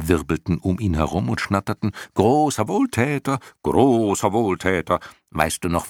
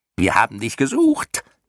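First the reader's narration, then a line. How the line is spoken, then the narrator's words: Shrieking. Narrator (German): kreischten die Schlamuffen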